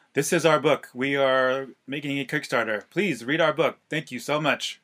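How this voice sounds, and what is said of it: Stiff, unnatural robotic voice. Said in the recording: “we came off as very unnatural ... that robot voice.”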